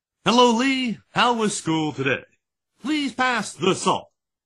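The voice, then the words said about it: Formal TV news anchor voice. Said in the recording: “he always talked like this. Even in casual conversation, he talked like he was doing a television report”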